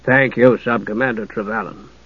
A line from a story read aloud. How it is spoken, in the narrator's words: Harry Aiken said, his voice cool and dispassionate